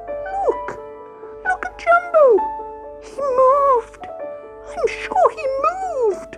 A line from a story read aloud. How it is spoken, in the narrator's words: squeaked Grey Whisker Mouse excitedly